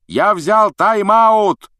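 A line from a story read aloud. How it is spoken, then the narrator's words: Shouting. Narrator (Russian): прокричал Вуд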